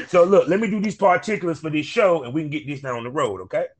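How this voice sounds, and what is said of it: Southern US country twang. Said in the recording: “I'm a country boy. ... that's how you can hear that country twang when I talk”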